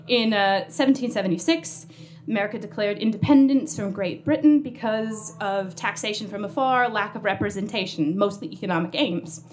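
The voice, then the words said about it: American accent. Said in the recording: “from my accent, I am American”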